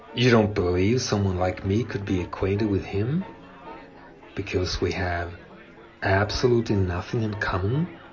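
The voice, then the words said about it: European accent. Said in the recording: “When I first came here from Europe, my accent was even worse then.”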